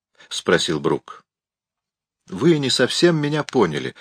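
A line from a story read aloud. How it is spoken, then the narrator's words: Soft objection. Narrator (Russian): мягко возразил Мигель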